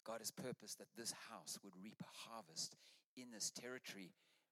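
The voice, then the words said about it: Noticeable non-local accent. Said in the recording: “You can hear my funny accent”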